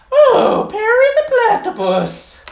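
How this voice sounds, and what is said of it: Cartoon villain character voice. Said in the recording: “your best Doofenshmirtz impersonation”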